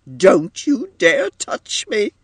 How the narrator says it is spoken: cried Edith

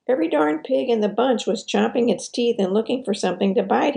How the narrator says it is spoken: he exclaimed

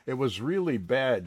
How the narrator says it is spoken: says, laughing

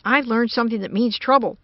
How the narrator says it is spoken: said Chuck urgently

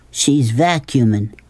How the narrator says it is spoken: said Rob

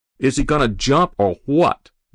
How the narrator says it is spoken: the fireman shouted

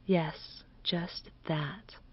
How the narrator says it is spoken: did Miss Fulton murmur

